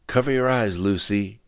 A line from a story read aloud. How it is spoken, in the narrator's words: yelled Frank